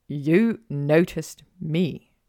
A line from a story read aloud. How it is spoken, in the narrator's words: he said slowly